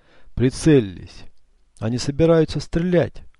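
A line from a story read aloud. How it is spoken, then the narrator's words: Exclaimed. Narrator (Russian): воскликнул Эцио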